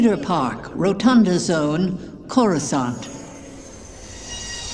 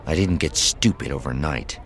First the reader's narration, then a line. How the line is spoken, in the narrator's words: she muttered